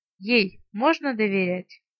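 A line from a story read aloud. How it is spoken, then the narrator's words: Sighing question. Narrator (Russian): вздохнул и спросил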